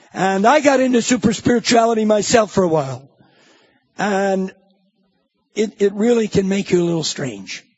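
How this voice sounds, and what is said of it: Loud New Jersey accent. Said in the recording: “New Jersey accent, loud”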